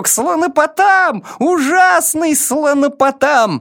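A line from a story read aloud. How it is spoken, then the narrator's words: Screaming. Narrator (Russian): продолжая вопить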